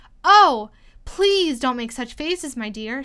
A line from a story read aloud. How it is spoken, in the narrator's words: she cried out, quite forgetting that the king couldn't hear her